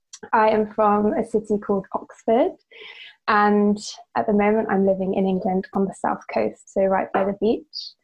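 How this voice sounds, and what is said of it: British English accent. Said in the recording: “as you can tell from the accent, live in the UK”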